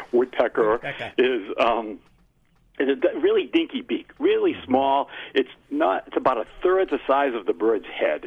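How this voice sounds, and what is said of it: Massachusetts accent. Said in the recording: “I'm going to watch my Massachusetts accent the best I can here”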